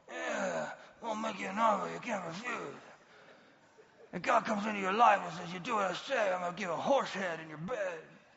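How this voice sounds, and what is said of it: Godfather movie character impression. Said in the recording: “Cotton balls would help with this impersonation”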